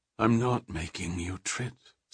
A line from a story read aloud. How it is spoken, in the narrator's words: said Odine sadly